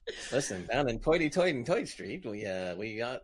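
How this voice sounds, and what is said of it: Put-on New York accent. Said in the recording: “what's a New York accent, mate?”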